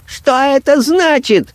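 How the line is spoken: High shrill shout. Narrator (Russian): кричал он высоким, визгливым голосом

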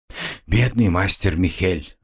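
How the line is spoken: Sighing. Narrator (Russian): вздохнула Магдалена

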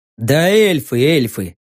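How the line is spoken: Sighing. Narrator (Russian): вздохнул я

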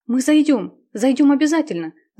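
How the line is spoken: Excited, agitated. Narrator (Russian): взволнованно сказала Марина

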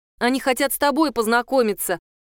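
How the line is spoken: Loud. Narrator (Russian): громко сообщила я Нинке

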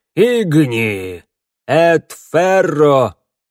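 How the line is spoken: Muffled group reply. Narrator (Russian): Глухо отозвались охотники

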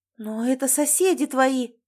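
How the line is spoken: Exclaim. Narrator (Russian): воскликнула Марина

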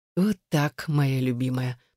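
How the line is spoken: Very quiet, husky. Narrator (Russian): произнес он очень тихо и сипло

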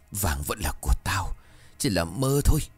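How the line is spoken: Trembling mutter. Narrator (Vietnamese): Bà ngồi phịch xuống vừa run rẩy vừa lẩm bẩm

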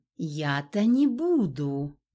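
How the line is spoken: Slow, ominous reply. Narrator (Russian): медленно ответила Горгона

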